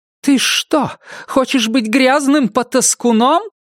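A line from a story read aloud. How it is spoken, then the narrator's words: Shouting. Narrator (Russian): закричала она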